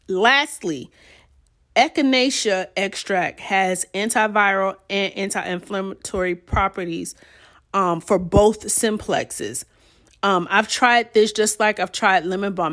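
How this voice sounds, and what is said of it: Hoarse, scratchy, fading voice. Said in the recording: “Y'all see my voice is really going ... my voice is going and my throat is scratchy”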